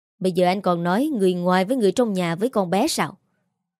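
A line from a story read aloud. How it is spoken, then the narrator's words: Raised voice. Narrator (Vietnamese): Bà Nga cao giọng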